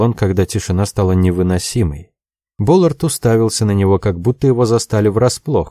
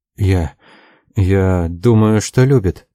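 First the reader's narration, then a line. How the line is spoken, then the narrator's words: Uncertain. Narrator (Russian): промолвил Лоусон неуверенно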